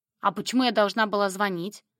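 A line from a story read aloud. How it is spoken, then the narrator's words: Slightly choked snapping retort. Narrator (Russian): Слегка придушенно огрызнулась я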